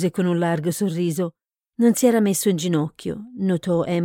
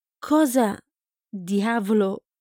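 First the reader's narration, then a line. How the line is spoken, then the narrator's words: Stammer. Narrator (Italian): balbettò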